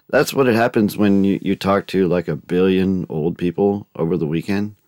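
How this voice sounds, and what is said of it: Froggy, hoarse voice. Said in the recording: “my voice sounds quite froggy this morning”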